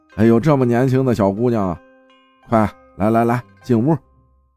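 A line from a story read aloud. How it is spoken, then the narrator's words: Amazed exclamation. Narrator (Chinese): 阿姨惊叹呀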